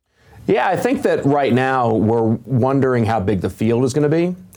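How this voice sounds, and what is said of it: Polished radio broadcaster voice. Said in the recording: “great radio voice”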